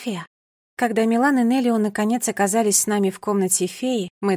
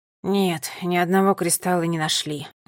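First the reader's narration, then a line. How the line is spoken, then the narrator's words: Sighing. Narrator (Russian): вздохнул Неллио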